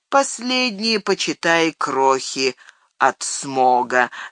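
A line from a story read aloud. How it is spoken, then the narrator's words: Plain, old man. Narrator (Russian): сказал старик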